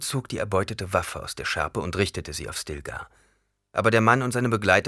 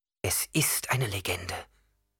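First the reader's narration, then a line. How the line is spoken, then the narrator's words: Plain. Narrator (German): sagte jemand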